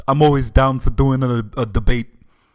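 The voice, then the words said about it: Bernie Sanders impression. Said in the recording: “I don't know if I can do a Bernie Sanders voice.”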